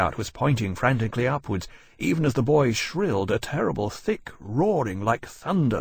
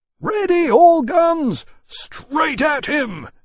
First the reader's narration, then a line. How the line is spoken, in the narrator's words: he roared